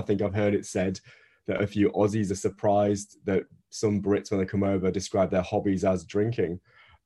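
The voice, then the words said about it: Northern British accent. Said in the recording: “as you can tell by my accent, I'm Northern British.”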